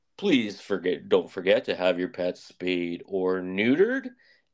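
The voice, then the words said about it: Imitates another person's voice. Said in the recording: “in my Bob Barker voice,”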